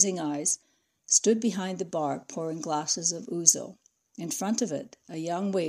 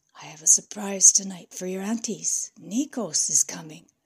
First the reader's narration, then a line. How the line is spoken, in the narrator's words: whispered